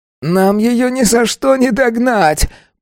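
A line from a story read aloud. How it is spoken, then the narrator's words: Groaning. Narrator (Russian): простонал Саркец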